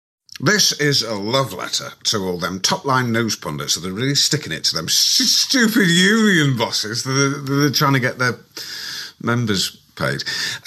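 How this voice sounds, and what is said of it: Alan Partridge impression. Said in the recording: “doing these kind of Coogan Partridge impressions ... Alan Partridge sides with the brilliant press on rail strikes ... Is this a good impression?”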